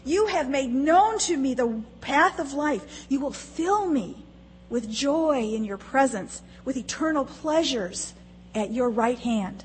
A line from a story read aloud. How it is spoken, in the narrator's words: he shouts